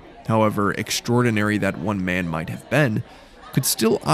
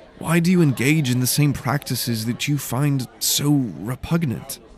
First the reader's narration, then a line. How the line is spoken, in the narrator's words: Daylan asked, his tone slightly cautious, trying his best not to challenge or offend his teacher